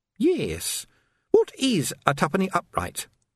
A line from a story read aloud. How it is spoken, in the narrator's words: said Sandra brightly